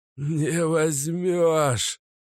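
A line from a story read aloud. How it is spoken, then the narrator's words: Hissing stranger. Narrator (Russian): Вновь прошипел незнакомец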